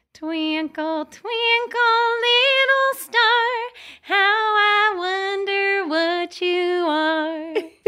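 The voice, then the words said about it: Sung cat voice, Midwestern accent. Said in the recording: “In Aubrey's voice ... this accent ... apparently from the ... Midwest”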